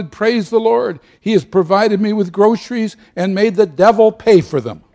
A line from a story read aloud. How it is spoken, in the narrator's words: The little old lady shouted